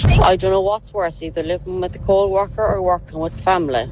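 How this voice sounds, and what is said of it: Irish Mayo accent. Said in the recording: “That's a proper Mayo accent.”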